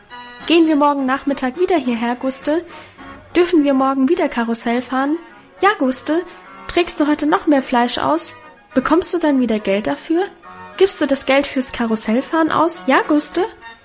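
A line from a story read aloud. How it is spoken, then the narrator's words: Excited overlapping chatter. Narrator (German): So schwatzten wir aufgeregt durcheinander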